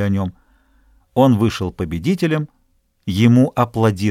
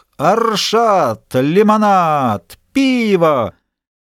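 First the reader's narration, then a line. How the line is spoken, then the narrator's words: Shrill shout over crowd. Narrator (Russian): Все тот же остряк кричал пронзительным голосом, заглушавшим голоса разговаривающих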